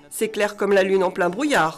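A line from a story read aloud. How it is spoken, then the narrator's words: Grumbled. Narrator (French): grogna le voyageur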